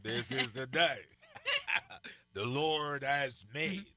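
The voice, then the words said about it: Preacher voice. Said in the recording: “I try to put my preacher voice on.”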